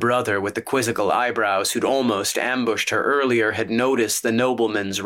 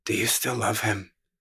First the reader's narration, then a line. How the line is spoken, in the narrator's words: He whispered